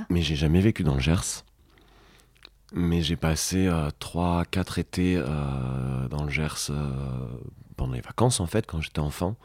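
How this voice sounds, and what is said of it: Slight sing-song southern French accent. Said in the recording (French): “t'as un petit accent... du sud... mon accent, il vient du Gers... son accent qui chantait”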